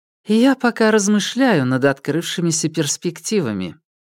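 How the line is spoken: Calm, faintly displeased. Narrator (Russian): Альбертина ответила спокойным тоном, но дала понять, что недовольна вопросом

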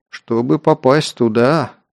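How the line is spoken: Gloomy remark. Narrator (Russian): мрачно заметил Кир

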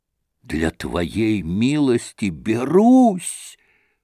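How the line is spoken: Trembling whisper. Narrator (Russian): прошептал он, дрожа всем телом

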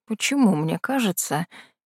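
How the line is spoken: Uncertain mumble. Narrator (Russian): неуверенно пробормотал Юэ

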